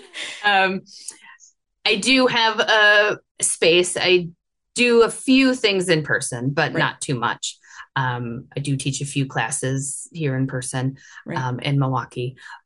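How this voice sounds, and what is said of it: Milwaukee, Wisconsin accent. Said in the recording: “I live in Milwaukee, Wisconsin, as you can probably tell from my accent.”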